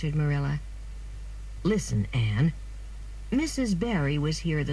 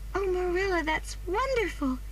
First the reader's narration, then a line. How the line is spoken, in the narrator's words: cried Anne